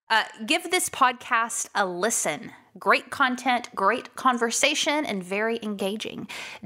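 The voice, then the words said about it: Texan accent. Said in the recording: “I'm going to say it in a Texas accent. Who am I kidding? I sound Texan already”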